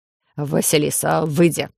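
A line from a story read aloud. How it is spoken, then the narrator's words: Gruff grumble. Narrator (Russian): буркнул гном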